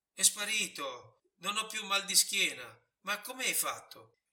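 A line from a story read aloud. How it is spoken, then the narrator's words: Stranger's sudden exclamation. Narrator (Italian): Subito lo straniero esclamò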